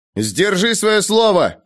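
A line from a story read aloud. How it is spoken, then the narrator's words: Shouted while running. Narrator (Russian): крикнул он, убегая вперед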